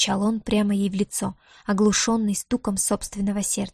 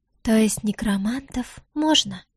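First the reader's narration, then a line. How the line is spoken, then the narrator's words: Breathed out. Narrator (Russian): выдохнула Диара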